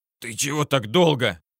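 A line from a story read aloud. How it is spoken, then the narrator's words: Hoarse rasp after vomiting. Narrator (Russian): прохрипел я, когда выблевал всю речную воду, которой наглотался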